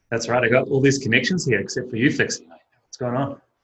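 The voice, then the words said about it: New Zealand accent. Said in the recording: “He originated from the wonderful, fantastic, and welcoming country of New Zealand. ... He has a fantastic accent”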